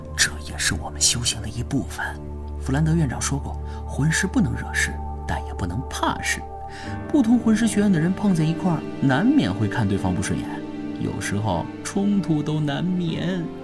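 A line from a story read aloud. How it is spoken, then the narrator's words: Low voice. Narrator (Chinese): 奥斯卡低声说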